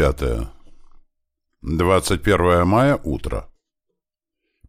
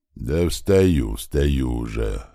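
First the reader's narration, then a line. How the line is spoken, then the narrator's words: Grumbling. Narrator (Russian): пробурчал тот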